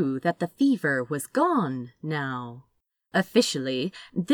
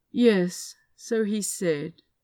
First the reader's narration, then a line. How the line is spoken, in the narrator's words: Azra replied, in the same dull voice